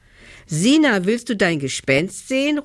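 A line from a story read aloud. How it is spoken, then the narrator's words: Calling out. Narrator (German): ruft Nelly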